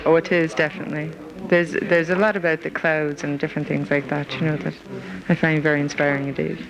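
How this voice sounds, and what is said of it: American accent. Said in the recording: “I detected a sort of an American accent there”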